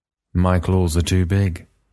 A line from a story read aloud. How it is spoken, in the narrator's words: Maximus said sadly